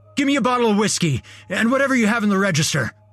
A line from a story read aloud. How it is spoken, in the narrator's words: he barked